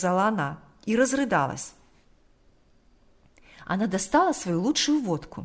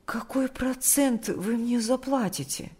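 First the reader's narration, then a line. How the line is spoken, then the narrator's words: Timid question. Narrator (Russian): спросила она робко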